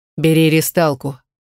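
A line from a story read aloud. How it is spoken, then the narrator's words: Cold command. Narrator (Russian): скомандовал холодно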